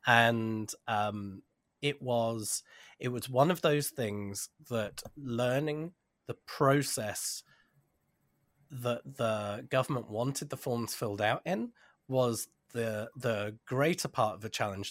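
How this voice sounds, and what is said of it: British accent, not local Canadian. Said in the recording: “this isn't a Yorkton or Weyburn accent. We immigrated from the UK.”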